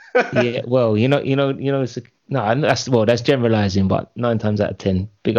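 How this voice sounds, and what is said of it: Usual voice. Nothing is said of it.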